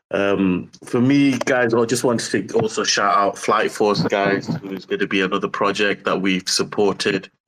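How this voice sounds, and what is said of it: British accent. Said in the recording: “the sexy British accent you have”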